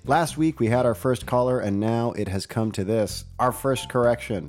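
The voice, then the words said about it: Husky, sick-sounding voice. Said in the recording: “nice husky, sick voice ... my voice is gonna sound mm, noticeably different”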